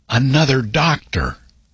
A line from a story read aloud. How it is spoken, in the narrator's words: In a slightly stronger tone, the patient said